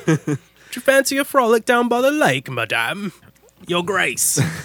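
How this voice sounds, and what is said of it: Put-on British accent. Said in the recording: “I love doing a British accent ... You're kind of a scary British guy”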